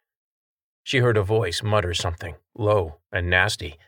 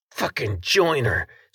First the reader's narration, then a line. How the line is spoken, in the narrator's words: swore the second one, who hawked and spat